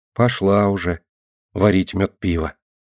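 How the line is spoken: Quiet small-creature voice. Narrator (Russian): мышка тихо говорила

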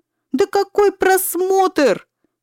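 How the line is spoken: Shouting. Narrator (Russian): теперь уж и кричал Зигфрид

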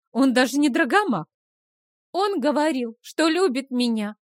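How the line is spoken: Shout. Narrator (Russian): тоже выкрикнула Фрея

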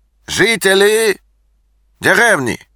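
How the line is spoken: Loud, slightly accented translation. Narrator (Russian): Громко переводил худой с легким акцентом

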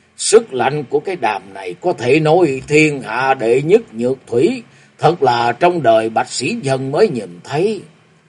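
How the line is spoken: Melancholy voice. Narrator (Vietnamese): với giọng u buồn nói

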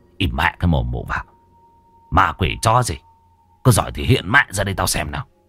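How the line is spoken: Stern old voice. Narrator (Vietnamese): Lão nghiêm giọng

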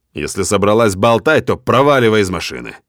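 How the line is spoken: Rude. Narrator (Russian): Грубо говорю

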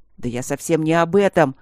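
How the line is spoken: Angry bark. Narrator (Russian): рявкнул Вудхаус, разозлившись

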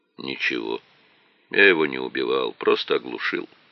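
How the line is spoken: Calm. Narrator (Russian): спокойно произнес Леонидов

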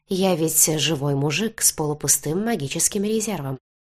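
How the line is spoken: Quiet telling. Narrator (Russian): тихо поведал он

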